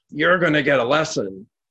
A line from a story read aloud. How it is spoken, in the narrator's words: he hollered